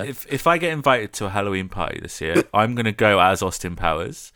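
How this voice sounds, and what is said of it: Usual voice. Nothing is said of it.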